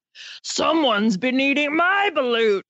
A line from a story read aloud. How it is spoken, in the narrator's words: growled the Papa J